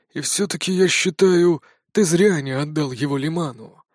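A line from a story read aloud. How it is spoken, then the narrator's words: Grumbling. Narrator (Russian): проворчал Мор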